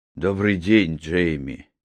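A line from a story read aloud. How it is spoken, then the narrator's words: Sad. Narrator (Russian): печально сказал Филипп Тайрер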